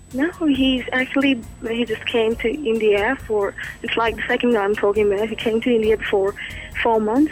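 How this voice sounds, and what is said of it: Australian accent. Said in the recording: “this Aussie mate of yours ... he's done a damn good job about passing on the accent to you. It's almost very real.”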